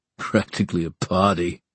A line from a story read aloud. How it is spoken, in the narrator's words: said the guard and chuckled